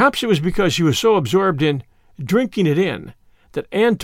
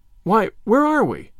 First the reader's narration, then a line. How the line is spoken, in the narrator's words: exclaimed Diana in bewilderment